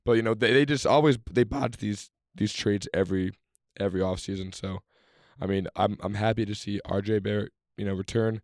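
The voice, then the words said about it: Scratchy, worn-out voice. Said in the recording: “my voice is a little scratched up from the previous game day.”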